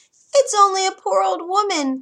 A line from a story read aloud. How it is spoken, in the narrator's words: came a squeaky voice